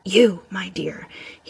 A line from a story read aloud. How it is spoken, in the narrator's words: he murmured